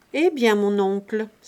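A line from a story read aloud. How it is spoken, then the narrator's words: Exclaimed. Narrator (French): s'écria le magistrat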